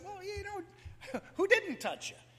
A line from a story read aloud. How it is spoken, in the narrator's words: giggled and said